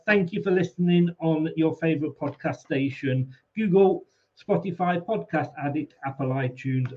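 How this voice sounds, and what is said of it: Strained, failing hoarse voice. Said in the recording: “excuse me, my voice is going.”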